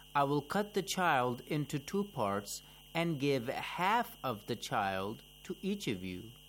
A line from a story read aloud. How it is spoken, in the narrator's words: Imam Ali calmly replied